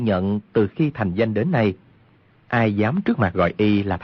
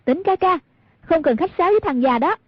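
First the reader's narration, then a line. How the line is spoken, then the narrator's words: Provocative cry. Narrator (Vietnamese): Hoàng Dung muốn gây rối tâm lý của Cừu Thiên Nhận, bèn kêu lên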